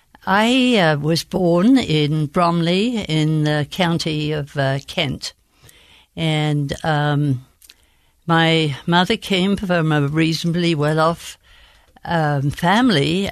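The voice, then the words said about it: Queen's English accent. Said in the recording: “this beautiful Queen's English accent”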